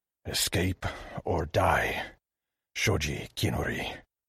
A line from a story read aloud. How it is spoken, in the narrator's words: He shook himself and growled